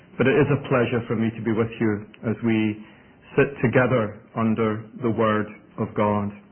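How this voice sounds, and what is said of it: Mellifluous Scottish accent. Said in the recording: “accent may be a little different from what you're used to ... it's Scottish ... my mellifluous Scottish accent”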